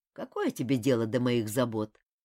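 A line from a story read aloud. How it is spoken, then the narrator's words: Grumbling. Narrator (Russian): проворчал Ким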